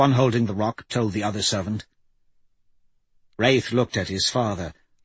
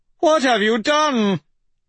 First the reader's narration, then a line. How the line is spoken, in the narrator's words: the other servant shouted, his eyes wide